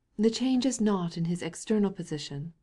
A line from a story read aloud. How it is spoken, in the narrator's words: said the Countess, solemnly